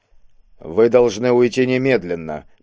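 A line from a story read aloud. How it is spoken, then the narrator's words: Grim repetition. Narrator (Russian): мрачно повторил брат Александр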